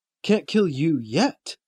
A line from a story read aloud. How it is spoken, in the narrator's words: Blakely chuckles